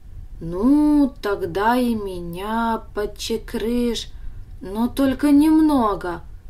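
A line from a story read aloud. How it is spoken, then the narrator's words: Hesitant request. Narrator (Russian): неуверенно попросил Даня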